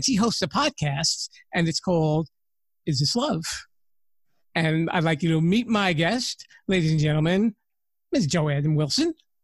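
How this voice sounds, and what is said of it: New York accent. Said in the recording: “I'm so excited to speak to a New Yorker ... Just the accent.”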